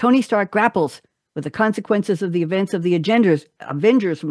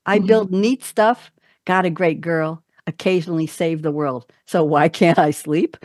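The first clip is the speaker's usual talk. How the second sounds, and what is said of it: New York accent lilt. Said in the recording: “I did that with a New York lilt.”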